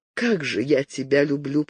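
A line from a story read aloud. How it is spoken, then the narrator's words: Loving whisper. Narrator (Russian): прошептала она, чувствуя, что в душе ее не осталось места ни для чего, кроме любви к этому мужчине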